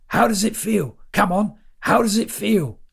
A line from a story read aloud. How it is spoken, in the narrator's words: shouted Lawrence